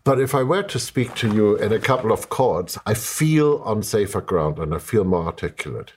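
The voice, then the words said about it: Strong non-native English accent. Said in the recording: “I am speaking to you in English, which obviously is not my mother tongue, as you might detect from the horrible accent.”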